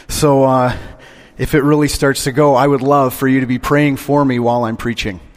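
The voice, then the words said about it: Hoarse, strained voice. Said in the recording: “I am in the process of losing my voice completely this morning.”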